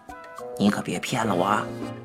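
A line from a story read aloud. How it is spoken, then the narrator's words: Whispering. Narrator (Chinese): 我的同学李明小声说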